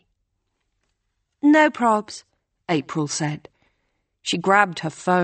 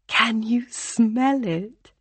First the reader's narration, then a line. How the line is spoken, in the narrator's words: She whispered